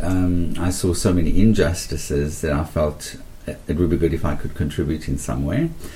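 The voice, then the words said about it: South African accent. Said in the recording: “as you can hear from my accent, I grew up in South Africa.”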